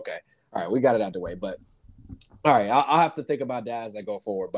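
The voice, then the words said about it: Slightly hoarse voice. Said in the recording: “if anybody hears my voice ... My voice is a little hoarse”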